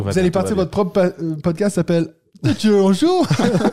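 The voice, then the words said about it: Imitated Swiss French accent, almost good. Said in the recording (French): “C'était une imitation de l'accent suisse... presque bien fait”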